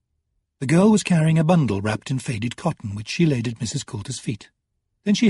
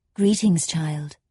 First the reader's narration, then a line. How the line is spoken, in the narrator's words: said Mrs